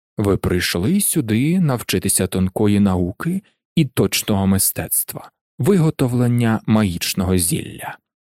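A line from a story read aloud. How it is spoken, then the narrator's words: Near whisper. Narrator (Ukrainian): заговорив майже пошепки Снейп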